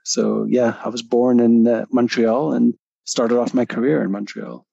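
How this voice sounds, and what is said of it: Canadian English accent. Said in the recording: “that doesn't sound like an English accent ... I haven't lost my Canadian accent”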